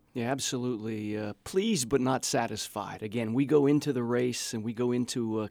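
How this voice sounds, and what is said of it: Slightly hoarse voice. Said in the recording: “voice is a little hoarse because he has been shouting jubilantly”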